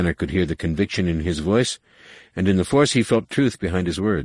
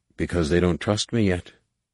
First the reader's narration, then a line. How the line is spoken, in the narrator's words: said sadly